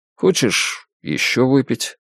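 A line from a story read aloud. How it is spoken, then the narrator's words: Hesitant offer. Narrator (Russian): неуверенно предложил Джек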